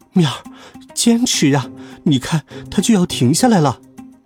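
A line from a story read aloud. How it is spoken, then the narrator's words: Panting, out of breath. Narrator (Chinese): 鹏鹏喘着粗气说道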